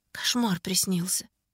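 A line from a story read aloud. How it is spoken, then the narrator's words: Shaken whisper. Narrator (Russian): прошептала я, до сих пор находясь во власти видения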